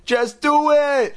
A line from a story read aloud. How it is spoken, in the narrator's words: Chris screamed